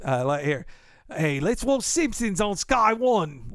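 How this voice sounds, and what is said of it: Put-on British accent. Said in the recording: “I need to have a better British accent ... I think I've got an okay one.”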